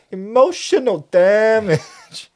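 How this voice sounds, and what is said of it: Exaggerated heavy Cantonese accent impression. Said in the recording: “They do very exaggerated accents ... they both really lean into like a heavy Cantonese accent”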